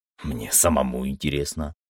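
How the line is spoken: Grumbling. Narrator (Russian): проворчал я

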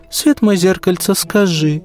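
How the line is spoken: Tender, affectionate. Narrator (Russian): так ласково

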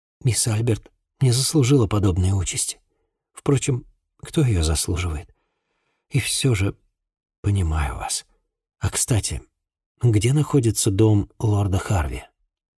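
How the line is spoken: Tearful, choked voice. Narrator (Russian): На глазах Люси выступили слезы, и она сдавленным голосом добавила

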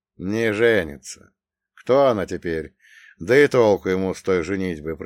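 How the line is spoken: Drawled. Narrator (Russian): протянул я

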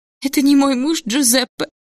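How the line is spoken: Sobbing. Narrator (Russian): всхлипнула кузина Беатрича

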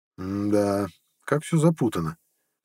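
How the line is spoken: Sighing. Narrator (Russian): вздохнул Иса

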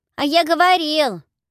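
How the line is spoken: Young schoolchild shouting. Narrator (Russian): выкрикнул кто-то из младших школьников

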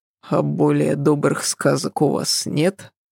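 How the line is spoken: Muttered. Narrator (Russian): пробормотал

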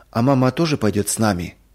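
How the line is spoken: Timid, trembling, near tears. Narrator (Russian): робко спросил Юрик, и голос его задрожал, будто он хотел заплакать

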